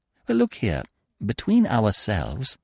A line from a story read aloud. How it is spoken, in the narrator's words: said Freddy earnestly